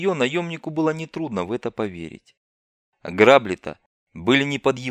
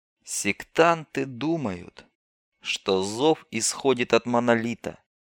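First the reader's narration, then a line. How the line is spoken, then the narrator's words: Quiet voice. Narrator (Russian): негромко проговорила она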